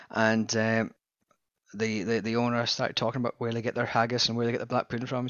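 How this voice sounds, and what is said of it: Scottish accent. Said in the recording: “a Scottish in Victoria expat page ... I'm ... with the accent.”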